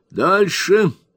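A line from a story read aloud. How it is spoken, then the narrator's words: Exclamation. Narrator (Russian): воскликнул мистер Джингль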